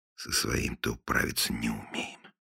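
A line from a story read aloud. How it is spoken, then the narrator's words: Muttered in Russian. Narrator (Russian): пробормотал он по-русски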